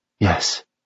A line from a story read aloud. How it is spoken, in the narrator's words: Mason responded, his voice barely above a breath